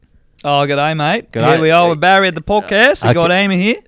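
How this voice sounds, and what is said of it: Put-on Australian accent. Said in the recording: “Australian”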